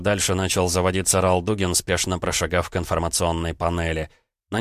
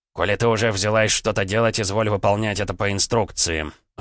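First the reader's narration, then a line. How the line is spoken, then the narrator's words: Irritated, curt. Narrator (Russian): раздраженно бросил целитель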